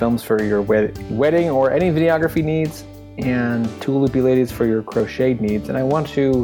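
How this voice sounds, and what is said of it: Usual voice. Nothing is said of it.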